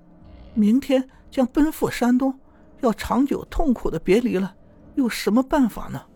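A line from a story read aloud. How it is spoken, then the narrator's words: Tearful, weeping. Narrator (Chinese): 七生听说后，挥泪淋漓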